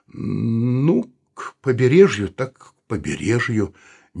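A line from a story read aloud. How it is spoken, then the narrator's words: Uncertain. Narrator (Russian): неуверенно сказал Саул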